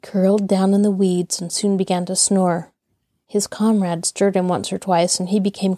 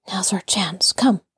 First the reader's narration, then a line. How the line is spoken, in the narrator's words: Tom whispered